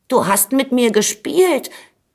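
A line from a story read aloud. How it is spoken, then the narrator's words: Called out. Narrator (German): rief da der Schwelberich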